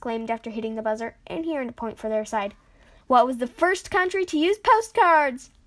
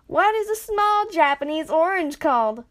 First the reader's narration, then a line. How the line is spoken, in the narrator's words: Gabby yelled